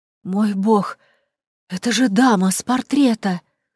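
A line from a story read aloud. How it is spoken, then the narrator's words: Choked hoarse rasp. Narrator (Russian): прохрипела Клуэ, сжимая горло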